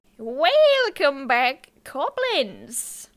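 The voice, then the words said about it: Unidentifiable put-on accent. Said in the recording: “What accent was that? I don't even know. ... It's a good one.”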